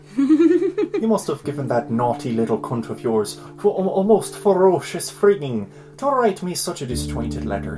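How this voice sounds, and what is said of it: Put-on Irish accent. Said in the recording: “do an Irish accent”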